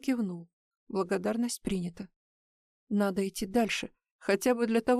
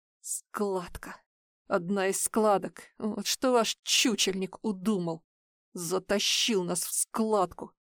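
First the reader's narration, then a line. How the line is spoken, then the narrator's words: Angry. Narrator (Russian): сказал Рокки зло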